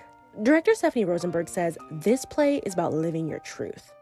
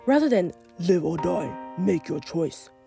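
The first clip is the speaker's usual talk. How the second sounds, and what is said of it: Imitates the Jigsaw villain voice. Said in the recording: “That's my Jigsaw impression.”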